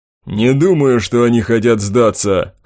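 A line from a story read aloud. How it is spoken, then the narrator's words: Wry snort. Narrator (Russian): хмыкнул меч Билл Мичиган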